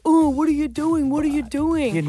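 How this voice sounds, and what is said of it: Impression of the co-host's voice. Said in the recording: “did that impression on me ... that's what you sound like”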